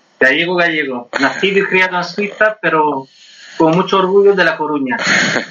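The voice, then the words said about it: Strong French accent in Spanish. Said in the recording (Spanish): “ese terrible acento francés que tiene”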